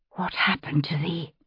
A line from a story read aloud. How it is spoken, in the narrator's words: Sylvia whispered